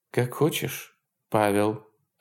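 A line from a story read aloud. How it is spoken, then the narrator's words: Forced calm. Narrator (Russian): ответила она, стараясь, чтобы ее голос звучал спокойно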